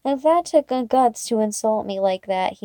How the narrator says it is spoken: he says

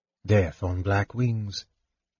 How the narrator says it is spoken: Tanis said softly

